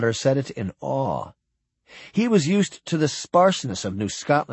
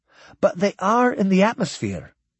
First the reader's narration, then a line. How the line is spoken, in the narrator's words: Potter said eagerly